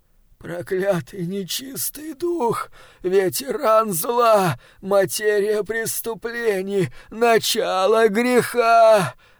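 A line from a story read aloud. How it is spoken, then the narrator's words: Groaning. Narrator (Russian): застонал он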